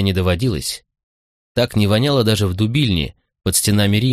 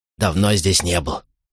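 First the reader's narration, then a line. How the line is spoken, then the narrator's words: Whisper. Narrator (Russian): шепотом сообщил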